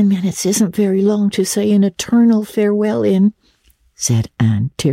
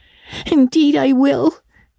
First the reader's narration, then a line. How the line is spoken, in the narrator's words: sobbed Diana